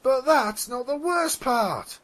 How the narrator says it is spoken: a fourth Pegasus cried out

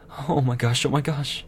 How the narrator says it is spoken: Twilight said nervously

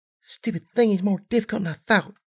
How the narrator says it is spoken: she muttered to herself

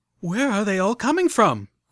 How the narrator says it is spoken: cried out Velvet Remedy as 5 more sprite bots rounded the doorway and started vaporizing our barricade of tables and refrigerators

